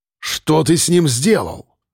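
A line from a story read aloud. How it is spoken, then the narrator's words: Guard barking nearby. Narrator (Russian): Голос одного из охранников рявкнул совсем близко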